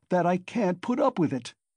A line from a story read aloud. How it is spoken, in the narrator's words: Raskolnikov cried furiously